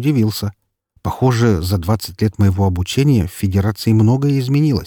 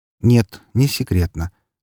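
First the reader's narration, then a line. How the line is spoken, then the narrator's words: Calm reply. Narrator (Russian): спокойно ответил лжечеловек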